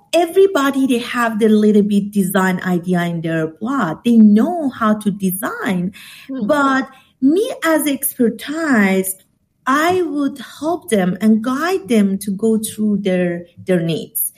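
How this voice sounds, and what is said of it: Non-native English accent. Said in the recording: “she's got that sexy accent ... You're global”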